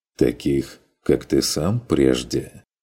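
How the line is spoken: Clarifying. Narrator (Russian): уточнил фон Вегерхоф

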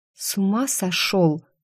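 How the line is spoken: Whispered question. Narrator (Russian): почему-то шепотом спросила я

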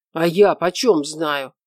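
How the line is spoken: Angry. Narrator (Russian): зло ответил Четвертков

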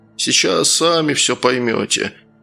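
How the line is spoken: Tired, smiling. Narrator (Russian): устало улыбнулся Гаврилий

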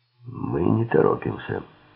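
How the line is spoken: Hoarse rasp. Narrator (Russian): прохрипел Силк

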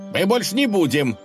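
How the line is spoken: Shouting again from treetop. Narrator (Russian): снова закричали где-то в кроне

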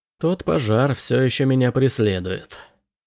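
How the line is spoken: Gloomy. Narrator (Russian): мрачно сказал Крейн

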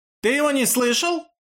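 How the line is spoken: Sharp scolding, female. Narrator (Russian): прикрикнула на Хасмина Рани Зариба

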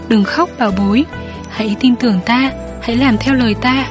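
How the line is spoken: Tender, very soft. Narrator (Vietnamese): hắn tỏ vẻ thương xót ... khẽ khẽ nói

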